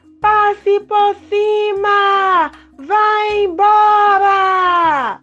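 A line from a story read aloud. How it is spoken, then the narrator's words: Shouted at the cloud. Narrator (Portuguese): gritaria para a nuvem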